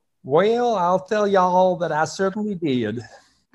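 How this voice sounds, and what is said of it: Put-on Southern accent. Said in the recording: “Did you pick up a Southern accent ... That was really good. That was really good.”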